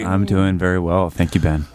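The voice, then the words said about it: Sexy, seductive voice. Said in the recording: “sexy. ... Sexy voice.”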